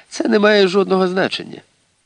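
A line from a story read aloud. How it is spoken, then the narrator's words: Sighing. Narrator (Ukrainian): Аліса зітхнула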